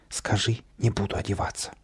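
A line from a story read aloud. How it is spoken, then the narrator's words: Muffled whisper. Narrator (Russian): Каприска из-под подушки шепнул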